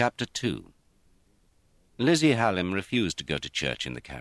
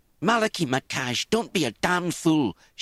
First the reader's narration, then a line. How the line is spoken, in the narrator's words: she exclaimed